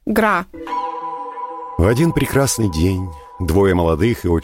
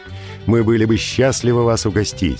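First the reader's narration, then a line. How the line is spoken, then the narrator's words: Plain. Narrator (Russian): сказал Динни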